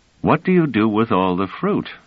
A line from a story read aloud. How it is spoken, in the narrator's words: asked Treves